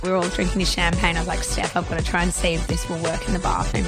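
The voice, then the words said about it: Hoarse, worn-out voice. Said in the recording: “my voice has gone a bit. ... A lot of yelling over the top of each other.”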